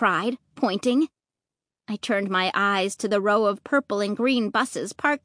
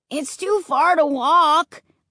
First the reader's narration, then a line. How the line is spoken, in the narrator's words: Luke wailed